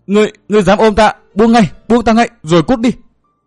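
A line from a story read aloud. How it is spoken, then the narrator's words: Weak, muffled shout. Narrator (Vietnamese): Thiết Tâm Nam hét, tiếng hét không vang lớn như ý muốn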